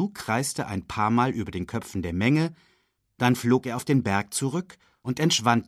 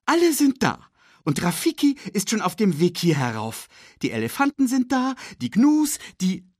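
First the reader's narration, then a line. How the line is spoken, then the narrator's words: Excited report. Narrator (German): berichtete er aufgeregt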